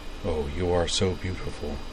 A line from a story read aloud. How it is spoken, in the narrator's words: murmured Walter